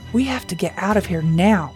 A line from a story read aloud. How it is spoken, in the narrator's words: he whispered as loudly as he could without being heard